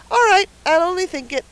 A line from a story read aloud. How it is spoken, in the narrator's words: said Davy cheerfully